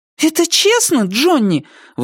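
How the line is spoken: Indignant question. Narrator (Russian): возмущенно спросила Сара

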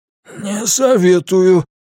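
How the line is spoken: Hoarse rasp. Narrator (Russian): прохрипел Дел

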